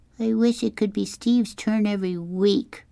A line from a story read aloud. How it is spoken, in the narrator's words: Kevin whined